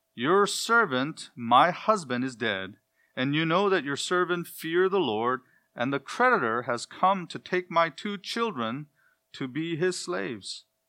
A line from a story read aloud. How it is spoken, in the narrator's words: a certain woman of the wives of the Bnei Hanaviim, the sons of the prophets, cried out to Elisha